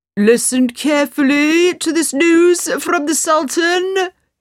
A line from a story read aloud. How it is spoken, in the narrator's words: he cried